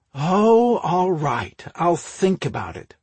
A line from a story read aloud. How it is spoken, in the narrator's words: Ruth conceded, with a dramatic sigh